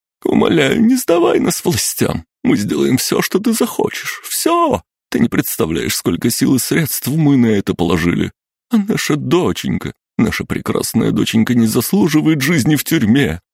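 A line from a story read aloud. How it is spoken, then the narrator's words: Sobbing. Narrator (Russian): Рыдала Анжелика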